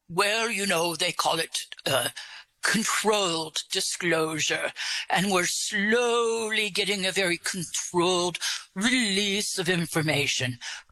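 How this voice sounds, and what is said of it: Put-on English accent. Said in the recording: “Where did you get your English accent? ... Oh, I actually created it for you. ... Although you're doing a good job with it.”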